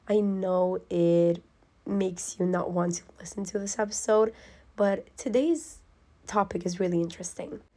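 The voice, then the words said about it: Sick, nearly lost voice. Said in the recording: “I apologize for my voice ... my mom got sick and she passed the sickness on to me, and my voice is almost gone. My throat is not here with us anymore. It's currently dying ... you guys will hear me like this”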